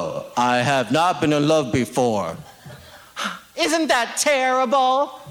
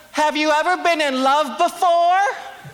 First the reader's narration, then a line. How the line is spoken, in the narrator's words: I would scream